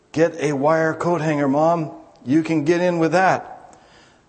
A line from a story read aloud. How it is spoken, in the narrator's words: In a hoarse voice, he whispered